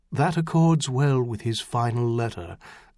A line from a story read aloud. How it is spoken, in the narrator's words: Stainer said softly